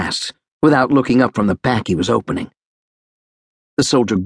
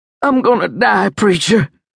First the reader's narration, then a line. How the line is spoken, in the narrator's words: said in a frightened voice